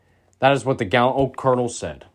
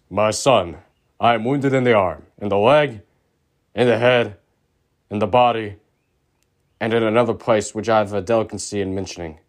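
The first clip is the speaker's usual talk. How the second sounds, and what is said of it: Deep bass character voice. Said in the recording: “in a deep bass voice”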